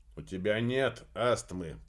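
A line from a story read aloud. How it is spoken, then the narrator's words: Grumbling. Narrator (Russian): пробурчал Аксель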